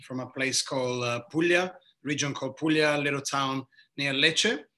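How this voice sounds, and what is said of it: Italian accent. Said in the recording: “As you can probably hear very quickly by my accent, I am from the southeast of Italy”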